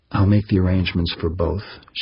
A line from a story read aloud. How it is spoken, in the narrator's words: said softly